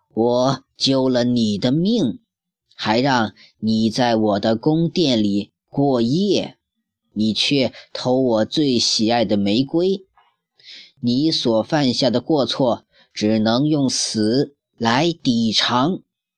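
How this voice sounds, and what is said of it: Frightening beast voice. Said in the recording (Chinese): “野兽用可怕的声音说”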